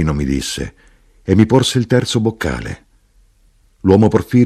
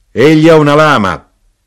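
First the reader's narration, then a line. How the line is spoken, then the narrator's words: Knife-grinder shouting. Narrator (Italian): l'arrotino gridò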